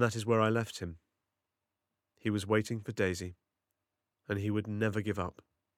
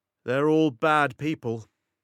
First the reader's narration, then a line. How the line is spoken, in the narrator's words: called out